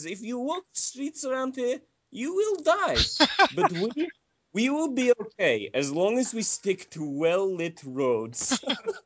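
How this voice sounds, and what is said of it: Poor put-on Armenian accent. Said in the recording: “my absolutely terrifying Armenian ... if that was a terrible accent”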